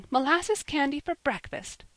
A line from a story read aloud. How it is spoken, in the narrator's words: cried Polly, laughing